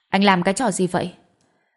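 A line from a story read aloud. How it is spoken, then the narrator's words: Angry. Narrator (Vietnamese): Cô tức giận nói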